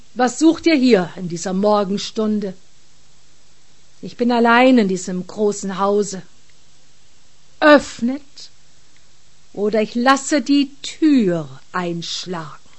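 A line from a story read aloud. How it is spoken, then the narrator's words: Stern officer's command. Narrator (German): befahl der Unterführer streng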